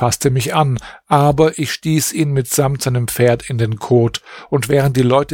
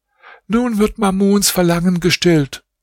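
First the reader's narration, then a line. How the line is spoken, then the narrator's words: Called out. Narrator (German): rief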